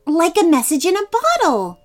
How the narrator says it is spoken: said Livie excitedly

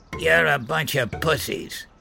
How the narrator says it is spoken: Jason spat

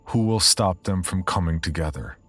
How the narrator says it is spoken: In a clear, commanding voice, ask

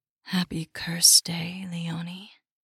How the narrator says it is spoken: a velvet voice breathed

